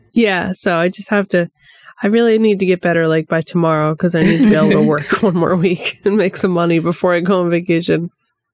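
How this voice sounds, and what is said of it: Weak, nearly lost voice. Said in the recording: “I'm on the tail end of a really bad two-day cold, so my voice is almost gone.”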